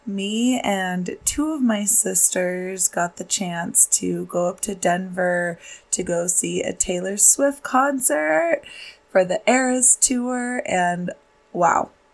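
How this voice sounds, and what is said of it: Slightly raspy voice. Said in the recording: “My voice is a little raspy today ... I definitely made it worse with all of the singing and screaming that I did.”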